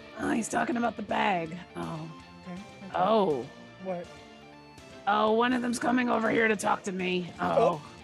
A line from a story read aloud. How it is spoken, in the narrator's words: under my breath you hear her say